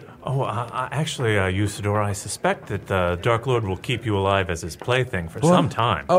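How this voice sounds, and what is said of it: Usual voice. Nothing is said of it.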